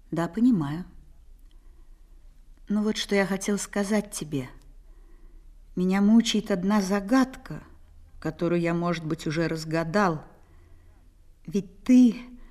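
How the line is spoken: Calm reply. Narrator (Russian): Я ответила спокойно

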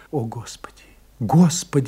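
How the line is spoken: Whispering. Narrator (Russian): шептала Франсуаза

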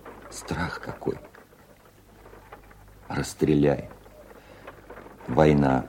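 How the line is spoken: Old veteran's voice. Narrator (Russian): стариковским голосом обстрелянного служаки ответил Володя

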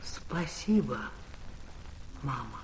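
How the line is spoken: Deep low voice. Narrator (Russian): Глубоким низким голосом заговорил Павел

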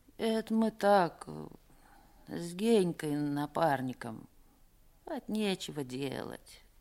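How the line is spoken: Muttering. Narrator (Russian): пробормотал Пека

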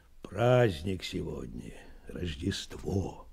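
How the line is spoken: Quiet reply. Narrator (Russian): тихо ответил Меркулов

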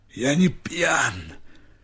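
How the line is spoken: Hoarse reply. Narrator (Russian): хрипло ответил Степа

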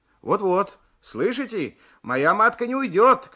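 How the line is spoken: Shouting. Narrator (Russian): кричал Алексеев

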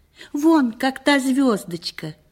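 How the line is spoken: Joyful exclamation. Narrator (Russian): воскликнул радостно

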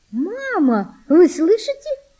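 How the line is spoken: Joyful high-pitched exclamation. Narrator (Russian): радостно, тонким голосом воскликнула Валентина

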